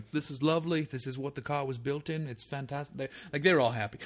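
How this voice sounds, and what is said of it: Put-on British accent. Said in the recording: “Are you Ringo Starr now? ... It's better than your British accent.”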